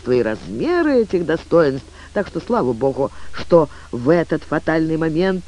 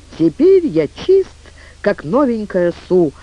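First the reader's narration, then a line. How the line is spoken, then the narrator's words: Joyful exclamation. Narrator (Russian): радостно воскликнул он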